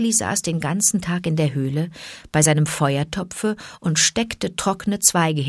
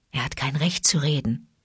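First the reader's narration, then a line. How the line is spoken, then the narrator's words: Whispered. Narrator (German): flüsterte Bagheera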